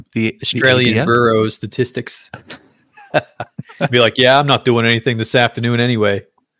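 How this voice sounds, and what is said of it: Put-on American accent. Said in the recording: “Why is your Australian Bureau of Statistics guy got an American accent? ... was that your New York accent as well?”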